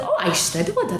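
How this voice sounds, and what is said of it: Bad put-on Welsh accent. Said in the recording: “my bad Welsh accent ... It's better than I got.”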